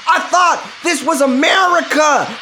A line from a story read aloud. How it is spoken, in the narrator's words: Guerrero screams